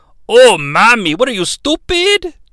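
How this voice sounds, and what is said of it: Eddie Guerrero impression. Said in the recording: “I didn't want to do an Eddie Guerrero impression. Because, you know, I'm not Eddie Guerrero. But I threw it in there at the end.”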